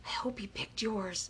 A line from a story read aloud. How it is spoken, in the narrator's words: Kyle whispered to Akemi